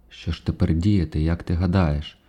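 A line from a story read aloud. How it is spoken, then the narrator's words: Quiet reply. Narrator (Ukrainian): тихо озвався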